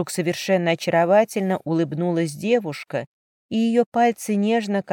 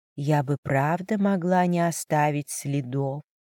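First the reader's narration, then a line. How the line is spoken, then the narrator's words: Tender, smiling voice. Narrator (Russian): нежно улыбнулась она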